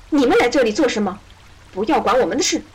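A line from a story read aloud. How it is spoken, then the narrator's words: Angry, tearful shouting. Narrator (Chinese): 艾丽亚眼里满是愤怒的泪水，大声地朝他们嚷嚷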